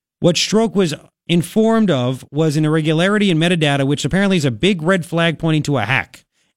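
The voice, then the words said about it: New York Long Island accent. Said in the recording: “my New York, my Long Island accent”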